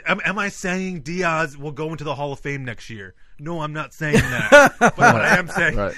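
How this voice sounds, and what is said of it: Imitates another person's voice. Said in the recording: “That sounds like an impression of somebody.”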